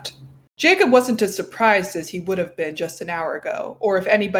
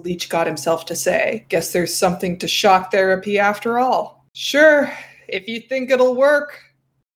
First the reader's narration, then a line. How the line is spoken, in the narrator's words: Jacob said with a sigh